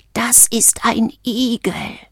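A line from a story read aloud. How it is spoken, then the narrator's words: Hoarse. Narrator (German): sagte er heiser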